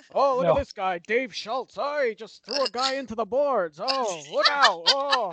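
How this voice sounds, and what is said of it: Impression of a sports commentator. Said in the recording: “That's a pretty good impression. ... That was actually very good.”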